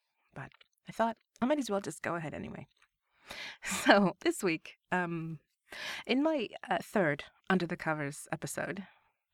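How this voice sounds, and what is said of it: Stuffed-up, congested voice. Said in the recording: “I still have a bit of cold, a little bit of the sniffles, so forgive me if I sound a bit stuffed up.”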